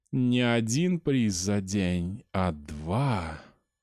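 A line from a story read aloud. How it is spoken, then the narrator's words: Purring. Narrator (Russian): промурлыкала она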